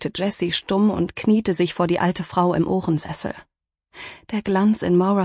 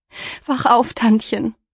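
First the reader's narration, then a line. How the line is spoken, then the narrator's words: Pleading. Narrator (German): flehte Jessie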